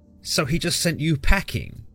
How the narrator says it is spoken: Oya sneered

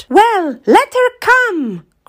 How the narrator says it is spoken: cried the boy

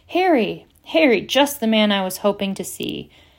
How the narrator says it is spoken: he boomed genially

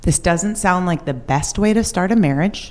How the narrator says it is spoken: my mom says very calmly

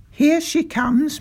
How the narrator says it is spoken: my father called out

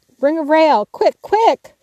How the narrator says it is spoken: Laurie's voice cried out

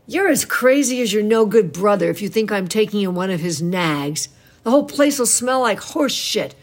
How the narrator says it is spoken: shouted

